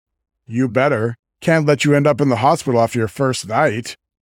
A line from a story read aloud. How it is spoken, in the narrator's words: Wyatt chuckles